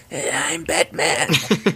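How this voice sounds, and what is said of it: Imitates another person's voice. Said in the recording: “in my Christian Bale voice”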